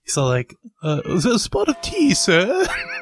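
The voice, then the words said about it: Put-on British accent. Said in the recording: “my British accent ... That's really good.”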